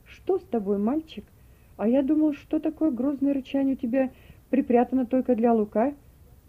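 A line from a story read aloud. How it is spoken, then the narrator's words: Laughing. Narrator (Russian): Джим рассмеялся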